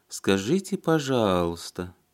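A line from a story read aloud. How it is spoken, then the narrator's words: Drawling. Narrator (Russian): протянула Сашенька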